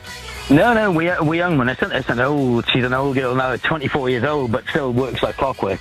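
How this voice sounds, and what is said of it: Slight Welsh accent. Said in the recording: “a slight Welsh twang to the accent ... I am a Welshman indeed”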